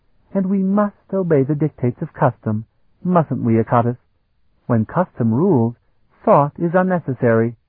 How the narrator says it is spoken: murmured

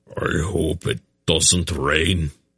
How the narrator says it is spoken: Beric growled

